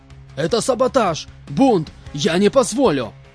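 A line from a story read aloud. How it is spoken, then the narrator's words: Yelling at full volume. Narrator (Russian): Орал во всю глотку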